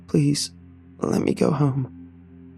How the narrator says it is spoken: I croaked, hot tears starting to fall

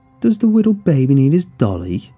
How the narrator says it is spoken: he mocked me in a childlike voice

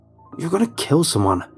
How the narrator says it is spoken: Rob barked

